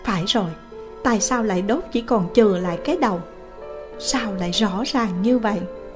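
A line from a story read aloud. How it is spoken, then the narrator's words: Said softly, puzzled. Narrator (Vietnamese): La Thiền nhíu mày khẽ nói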